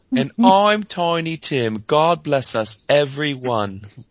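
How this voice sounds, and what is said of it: Fake British accent. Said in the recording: “a faux British accent”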